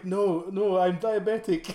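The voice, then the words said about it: Put-on accent. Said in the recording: “stop with the accent now because it's probably offensive”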